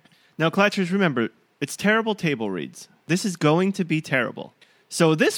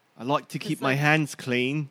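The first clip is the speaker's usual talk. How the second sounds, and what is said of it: Angry imitation of a character's accent. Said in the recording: “sounds like Bronn... That's not even his accent... I'm an angry Bronn”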